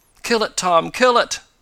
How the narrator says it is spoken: begged the eccentric man

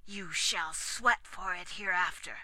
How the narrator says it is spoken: he added through his teeth

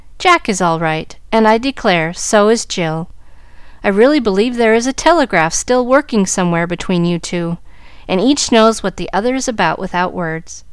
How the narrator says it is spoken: Minot's voice said cheerfully

